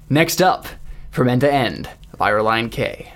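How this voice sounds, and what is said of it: Radio announcer voice. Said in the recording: “in my best radio announcer voice,”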